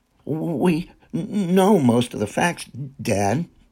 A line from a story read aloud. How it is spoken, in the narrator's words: John Jericho stammered